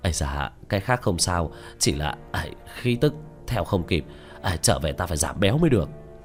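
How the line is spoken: Panting speech. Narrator (Vietnamese): Tứ Bảo miệng đã thở hổn hển nói

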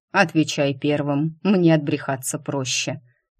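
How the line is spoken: Commanding. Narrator (Russian): велел Дайм

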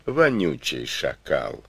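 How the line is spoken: Gentle question. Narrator (Russian): ласково спросил хан

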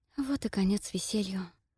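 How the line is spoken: Whisper. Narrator (Russian): прошептала я

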